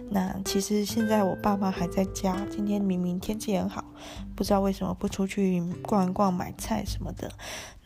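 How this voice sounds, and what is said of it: Quiet, hushed speaking voice. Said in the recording (Chinese): “小声的、偷偷的录广播”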